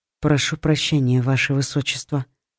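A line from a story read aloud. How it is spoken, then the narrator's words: Quiet, subdued. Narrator (Russian): тихо проговорила девушка, которой мгновенно расхотелось улыбаться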